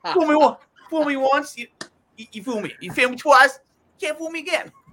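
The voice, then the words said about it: Imitates another person's voice. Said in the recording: “That's, that's pretty good Bush impression.”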